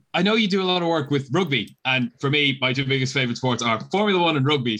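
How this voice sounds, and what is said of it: Accent from across the pond. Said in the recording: “I'm on that side of the pond, if you couldn't tell from the different accent.”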